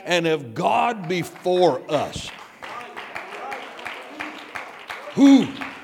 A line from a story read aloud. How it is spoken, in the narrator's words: Somebody shouted with me